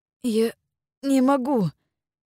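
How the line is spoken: Frightened hoarse rasp. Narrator (Russian): испуганно прохрипел он

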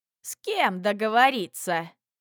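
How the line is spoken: Scoffing. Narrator (Russian): хмыкнул худой

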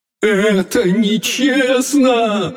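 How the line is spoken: Sobbing. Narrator (Russian): рыдал он

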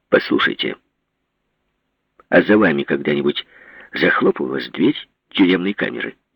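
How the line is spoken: Sharp question. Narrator (Russian): резко спросил Иван Васильевич

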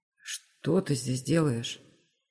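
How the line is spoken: Hoarse voice. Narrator (Russian): хриплый голос

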